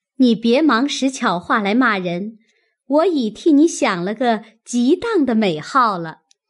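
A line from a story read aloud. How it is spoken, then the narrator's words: Sly, sneering laugh. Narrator (Chinese): 探春阴笑道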